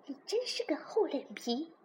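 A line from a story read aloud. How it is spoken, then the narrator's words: Hurried muttered whisper. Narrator (Chinese): 公主连忙说道，对着青蛙小声嘀咕着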